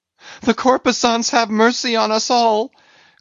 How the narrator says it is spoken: cried Stubb again

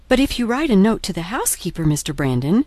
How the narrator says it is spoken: said Marianne eagerly

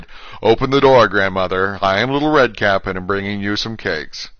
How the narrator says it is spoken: then a wolf knocked and cried

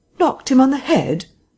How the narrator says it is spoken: exclaimed Kemp

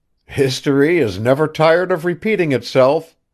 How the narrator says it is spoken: he cried with a laugh

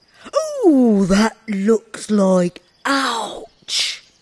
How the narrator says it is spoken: exclaimed the bear

